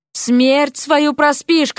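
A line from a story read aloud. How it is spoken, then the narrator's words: Shouting. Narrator (Russian): кричала ему Вася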